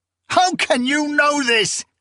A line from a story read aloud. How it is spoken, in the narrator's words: Saban cried, overcome by incredulous woe